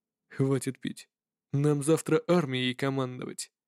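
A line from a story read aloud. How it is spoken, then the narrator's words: Serious general's reply. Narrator (Russian): серьезным тоном ответил генерал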